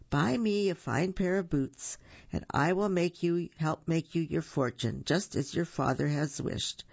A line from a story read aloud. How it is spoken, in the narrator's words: replied the cat